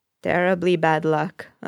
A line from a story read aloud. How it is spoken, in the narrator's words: an old woman says flatly